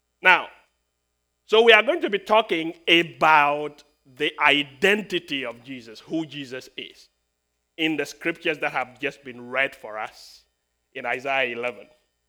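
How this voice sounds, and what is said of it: Speaks with a noticeable accent. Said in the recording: “people tell me that I have an accent ... my accent gives me an advantage because you have to listen very intently”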